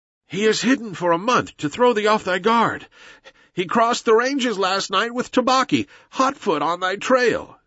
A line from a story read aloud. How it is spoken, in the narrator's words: said the wolf, panting